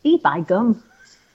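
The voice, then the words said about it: Posh voice attempting Yorkshire accent. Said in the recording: “That wasn't a Yorkshire accent. That was a posh person saying something Yorkshire people would say.”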